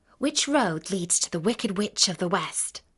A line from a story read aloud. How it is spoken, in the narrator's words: asked Dorothy